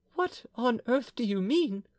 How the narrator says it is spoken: cried Bertrand, wringing her hands in terror

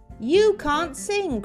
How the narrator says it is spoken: cried the bluebird

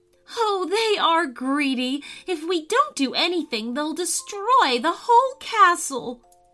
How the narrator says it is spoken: cried Cordelia

